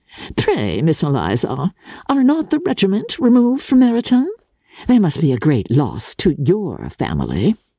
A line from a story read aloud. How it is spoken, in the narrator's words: in the imprudence of anger, took the first opportunity of saying, with sneering civility